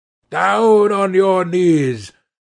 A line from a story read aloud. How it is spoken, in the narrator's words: growled the man